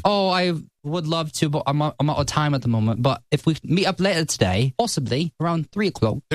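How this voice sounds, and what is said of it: Inconsistent put-on British accent. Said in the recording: “give us a British ... You're going from one accent to another a little bit, but I think you've got a good basis.”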